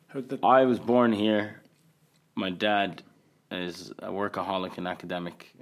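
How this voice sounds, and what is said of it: Fading Irish accent. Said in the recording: “The Qatari with the Irish accent ... it's um, fading away slightly ... It is fading away”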